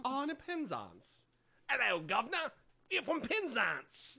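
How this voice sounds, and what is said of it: Bad put-on British accent. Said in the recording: “I should be actually using a British accent ... your accents are terrible”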